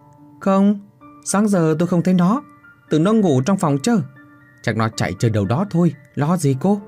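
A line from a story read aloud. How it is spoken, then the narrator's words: Smiling. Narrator (Vietnamese): Chị ba mỉm cười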